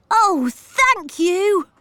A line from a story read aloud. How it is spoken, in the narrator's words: cried Peter